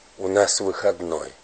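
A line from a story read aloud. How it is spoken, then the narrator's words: Mysterious reverent whisper. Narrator (Russian): шептал таинственно, как в храме Ильчин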